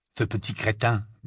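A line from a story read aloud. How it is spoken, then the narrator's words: Murmuring. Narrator (French): murmura Ron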